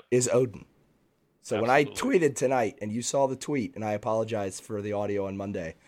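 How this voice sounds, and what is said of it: Raspy, gravelly voice. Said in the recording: “my voice is a little bit raspy ... It's like a sexy gravel.”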